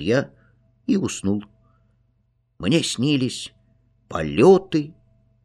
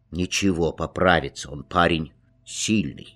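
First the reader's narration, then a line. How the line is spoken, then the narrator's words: Plain. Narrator (Russian): сказал доктор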